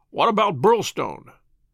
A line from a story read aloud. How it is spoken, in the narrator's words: he asked